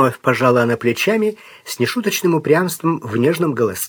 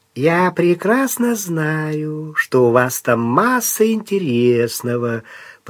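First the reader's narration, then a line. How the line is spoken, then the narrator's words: Drawl, strange intonation. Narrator (Russian): протянула Латея с непонятной интонацией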